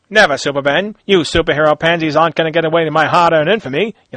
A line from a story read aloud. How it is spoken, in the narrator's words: yelled out Muggsy